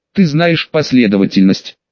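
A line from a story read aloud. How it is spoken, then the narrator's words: Plain. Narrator (Russian): спросил он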